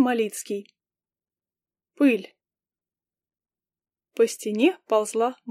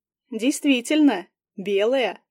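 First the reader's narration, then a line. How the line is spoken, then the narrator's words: Amused snort. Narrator (Russian): хмыкнул сержант Бак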